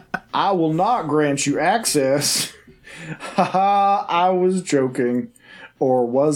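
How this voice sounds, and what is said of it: Creepy sinister character voice. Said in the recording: “giving this character this voice... I went all the way from Colorado logging camp to Williamsburg serial killing uncle”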